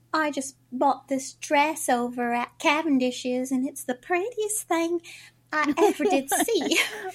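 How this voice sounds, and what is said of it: Pretend accent, flirtatious. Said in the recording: “the cutest little pretend accent”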